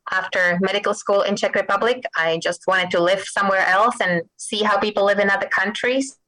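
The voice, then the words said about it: Czech accent. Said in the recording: “I came to Massachusetts from Czech Republic. You probably can detect my accent.”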